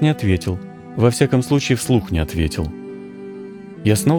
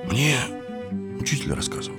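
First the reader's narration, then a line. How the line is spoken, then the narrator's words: Embarrassed boy mumbling. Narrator (Russian): пробормотал мальчик, будто смутившись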